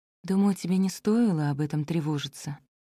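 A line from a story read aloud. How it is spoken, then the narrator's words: Mother whispering. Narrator (Russian): прошептала мама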